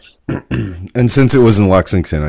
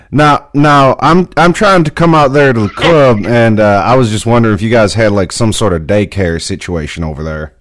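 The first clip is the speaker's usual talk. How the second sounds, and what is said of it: Put-on Southern accent. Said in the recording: “I used my Southern accent ... So, that's actually pretty good.”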